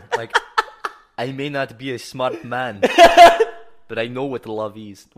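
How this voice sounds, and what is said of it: Put-on Russian accent. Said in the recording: “Why am I doing a Russian accent? ... Is that your Hitler accent?”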